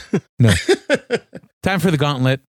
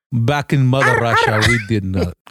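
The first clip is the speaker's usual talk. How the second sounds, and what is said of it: Put-on Russian accent. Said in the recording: “you have a Russian accent?”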